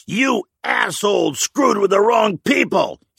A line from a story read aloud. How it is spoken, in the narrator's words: yelled through gritted teeth